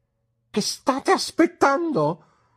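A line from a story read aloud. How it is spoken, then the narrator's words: Exclaimed. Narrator (Italian): esclamò Uriah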